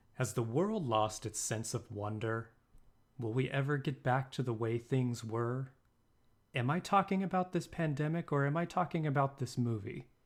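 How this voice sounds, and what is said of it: Epic movie-trailer narrator voice. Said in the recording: “sexy voice? ... The epic narrator voice.”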